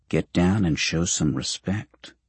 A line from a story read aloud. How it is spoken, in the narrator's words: Carlisle whispers